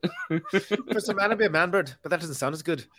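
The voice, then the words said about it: Put-on Irish Belfast accent. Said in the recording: “These all do sound better with an Irish accent ... that's the Belfast accent”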